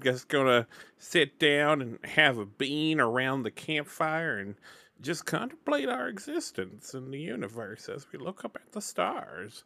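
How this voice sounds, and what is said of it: Put-on cowboy accent. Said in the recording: “I'm really glad I'm not doing a cowboy accent for this series now that I have tried it ... my cowboy persona”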